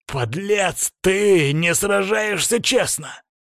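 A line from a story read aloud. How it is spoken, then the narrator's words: Growling. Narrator (Russian): прорычал мой противник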